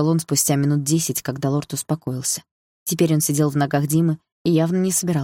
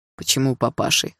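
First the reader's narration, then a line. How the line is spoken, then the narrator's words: Snort. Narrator (Russian): хмыкнул Дима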